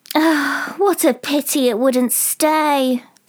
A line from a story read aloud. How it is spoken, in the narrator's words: sighed the lorry